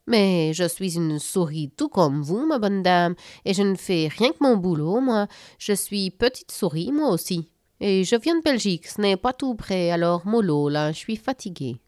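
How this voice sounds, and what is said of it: Strange Belgian accent. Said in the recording (French): “Cette souris à l'étrange accent ... La souris belge”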